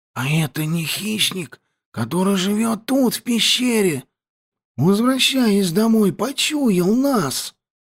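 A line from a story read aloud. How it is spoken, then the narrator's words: Whispered. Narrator (Russian): прошептал Петька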